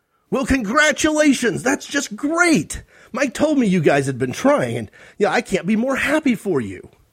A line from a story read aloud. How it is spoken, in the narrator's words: Nate exclaimed